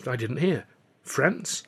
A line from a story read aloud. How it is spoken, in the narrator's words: Alf gasped